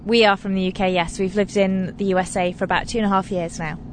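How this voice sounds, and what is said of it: British accent. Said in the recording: “I'm really bad at pinpointing accents ... I'm going to say that you live in the UK, right?”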